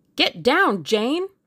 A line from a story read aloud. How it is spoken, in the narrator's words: cried Julius